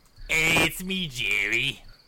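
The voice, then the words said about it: Put-on Boston/New York accent. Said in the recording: “talk in a Boston accent? ... Boston ... Slash New York. ... Doing New York guy.”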